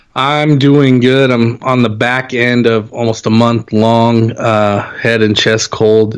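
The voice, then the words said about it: Slightly scratchy voice. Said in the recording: “my voice is still a little scratchy”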